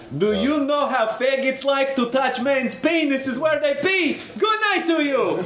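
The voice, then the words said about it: Put-on Russian accent. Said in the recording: “doing a Russian accent”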